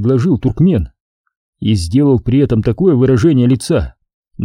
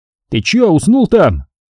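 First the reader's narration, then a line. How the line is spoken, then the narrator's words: Impatient shout. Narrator (Russian): Туркмену первому надоело ждать, и он крикнул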